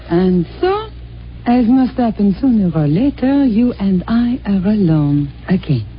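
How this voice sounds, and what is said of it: Fake French accent. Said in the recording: “you can drop that phony French accent”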